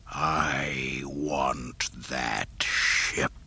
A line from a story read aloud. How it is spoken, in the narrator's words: the Dark Lord hissed